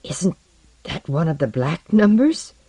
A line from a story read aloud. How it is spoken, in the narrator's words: said in a peculiar, struggling voice